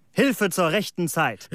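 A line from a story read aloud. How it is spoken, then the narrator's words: Exclaimed. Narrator (German): rief aus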